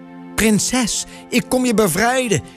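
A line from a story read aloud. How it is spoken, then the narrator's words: Shout. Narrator (Dutch): riep Toren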